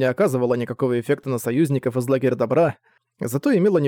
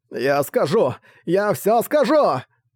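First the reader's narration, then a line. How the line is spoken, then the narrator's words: Shrill scream. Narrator (Russian): Он пронзительно завопил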